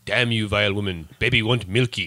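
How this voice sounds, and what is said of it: Stewie cartoon baby character voice. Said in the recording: “your Stewie impression ... My Stewie impression is that good.”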